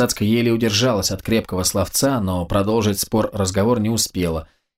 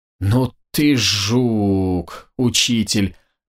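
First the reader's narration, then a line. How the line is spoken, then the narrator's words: Surprised drawl. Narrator (Russian): протянула Елизавета, удивленно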